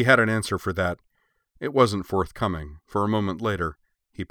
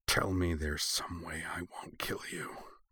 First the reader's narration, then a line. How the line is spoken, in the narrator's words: Utena furious hissed